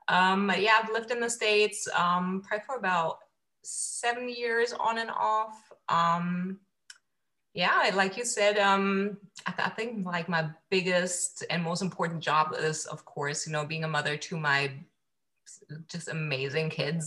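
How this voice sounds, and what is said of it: Slight German-influenced mixed accent. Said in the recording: “I'm actually from Germany, so you'll probably hear like a slight accent here and there ... I don't have like the typical German accent, but like a miscellaneous one”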